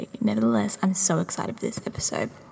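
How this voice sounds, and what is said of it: Very quiet, hushed speaking. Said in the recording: “I'm talking so quietly because I'm actually at my boyfriend's house and everyone is asleep”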